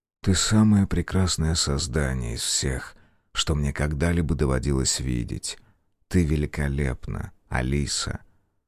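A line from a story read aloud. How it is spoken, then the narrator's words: Quiet. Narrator (Russian): Николай тихо произнес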